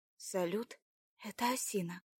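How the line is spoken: Quiet, over radio. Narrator (Russian): тихо вымолвила в рацию Марина

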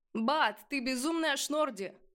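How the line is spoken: Shouted out. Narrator (Russian): выкрикнул поднимающийся Тазар

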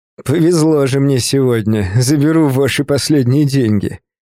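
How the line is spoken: Mocking tone. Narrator (Russian): издевательским тоном продолжил он

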